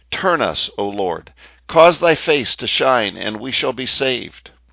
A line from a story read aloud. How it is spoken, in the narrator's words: The psalmist cried out